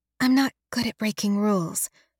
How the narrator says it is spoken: Halliday mumbles behind me

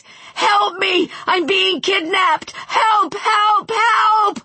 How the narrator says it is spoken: Wayne screamed, his voice cracking

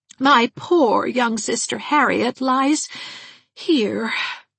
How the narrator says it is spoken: sighed Miss Valentine

